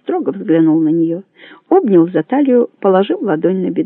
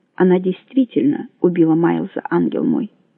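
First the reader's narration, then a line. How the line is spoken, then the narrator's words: Said quietly. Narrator (Russian): сказал он тихо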